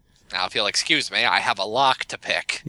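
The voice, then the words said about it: Quark character impression, drifting. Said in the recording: “Your Quark's straying over into your Paul Lind.”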